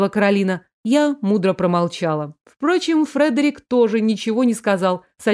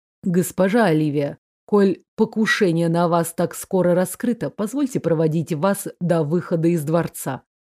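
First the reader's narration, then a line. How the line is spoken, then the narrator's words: Calm offer. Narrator (Russian): спокойно предложил Фредерик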